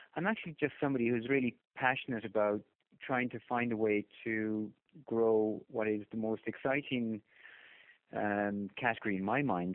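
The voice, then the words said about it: Irish accent. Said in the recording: “beyond the obvious Irish accent”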